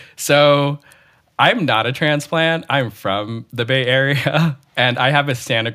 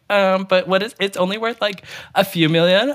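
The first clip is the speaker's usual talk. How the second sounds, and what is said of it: Imitates another person's voice. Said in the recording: “that's a very good impression.”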